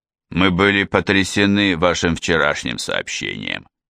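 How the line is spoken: Muffled speech. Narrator (Russian): глухо заговорил Сюб

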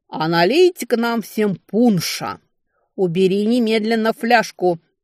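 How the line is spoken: Commanding growl. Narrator (Russian): Командирским тоном прорычала Летиция

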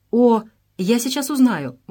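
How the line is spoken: Exclaiming. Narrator (Russian): воскликнула Мария

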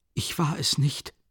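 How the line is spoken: Frightened childlike stammer. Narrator (German): stammelte Raskolnikow wie ein verschrecktes Kind, wenn es auf frischer Tat ertappt wird

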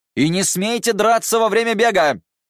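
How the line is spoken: Shouted after them. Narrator (Russian): крикнул Циян им вслед

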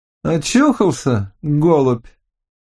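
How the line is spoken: Cheerful call. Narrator (Russian): весело окликнул

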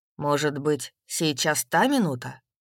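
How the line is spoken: Plain. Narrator (Russian): сказал он

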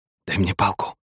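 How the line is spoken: Whisper. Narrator (Russian): прошептал Мина

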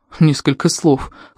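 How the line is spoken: Snorted. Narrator (Russian): фыркнул другой

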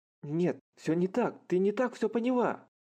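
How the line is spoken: Exclamation. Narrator (Russian): Воскликнул Харухира

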